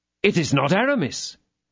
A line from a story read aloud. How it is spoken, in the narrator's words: exclaimed D'Artagnan